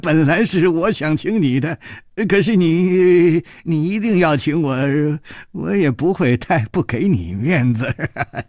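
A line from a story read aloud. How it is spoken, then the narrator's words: Laughing. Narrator (Chinese): 金七良笑了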